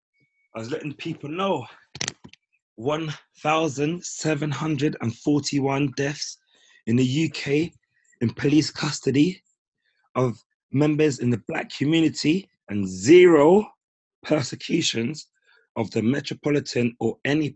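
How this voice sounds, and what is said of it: Hoarse, strained voice. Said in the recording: “My throat is a bit, you can hear my voice probably. My voice is a bit gone from shouting”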